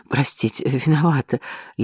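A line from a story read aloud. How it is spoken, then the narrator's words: Flustered babbling. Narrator (Russian): лепетала она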